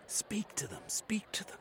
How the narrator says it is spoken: Charamy whispered

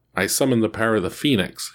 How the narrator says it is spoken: he cried

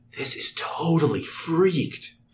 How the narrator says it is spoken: Jake whispers

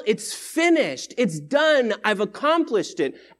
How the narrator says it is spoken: Jesus is shouting in victory

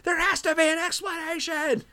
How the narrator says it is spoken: George, losing his mind, yells

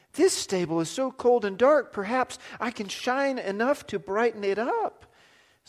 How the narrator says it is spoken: cried

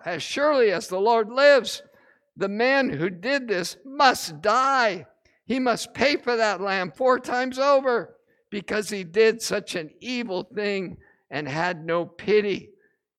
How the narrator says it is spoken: he blurts out

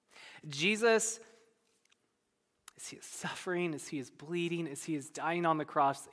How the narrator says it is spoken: cries out

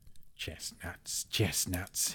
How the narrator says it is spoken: he hissed

